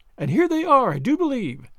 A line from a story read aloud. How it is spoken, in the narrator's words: said Sally, excitedly